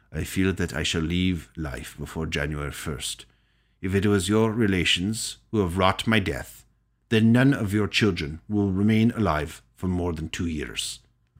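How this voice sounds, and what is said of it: Bad put-on Russian accent. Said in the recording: “That's, by the way, the worst Russian accent of all time. ... It wasn't that bad.”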